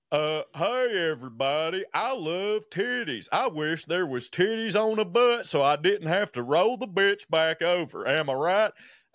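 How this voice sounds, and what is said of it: Imitates another person's voice. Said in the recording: “remember Wade Cardwell ... do the voice.”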